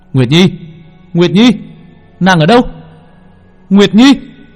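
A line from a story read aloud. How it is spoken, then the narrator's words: Desperate yelling. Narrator (Vietnamese): Long Vân gào thét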